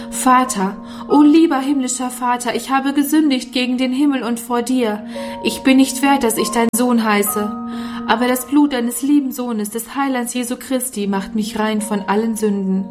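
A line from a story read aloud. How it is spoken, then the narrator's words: Crying out into night. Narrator (German): rief in die schreckliche Nacht hinaus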